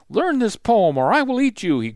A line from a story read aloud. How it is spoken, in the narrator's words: he growled